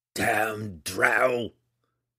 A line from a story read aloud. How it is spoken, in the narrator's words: he roared again